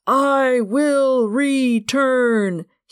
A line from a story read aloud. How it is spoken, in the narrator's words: he bellowed